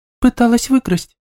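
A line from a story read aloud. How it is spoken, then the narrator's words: Barely audible squeak. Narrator (Russian): пискнула Ника еле слышно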